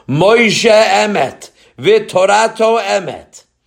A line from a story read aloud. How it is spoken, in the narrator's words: they were shouting